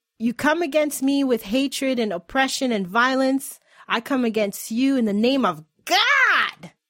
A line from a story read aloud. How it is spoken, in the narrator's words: Bree yell